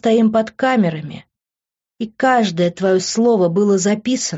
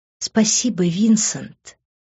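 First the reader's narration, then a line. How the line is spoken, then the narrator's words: Whispered in the ear. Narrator (Russian): прошептала я ему на ухо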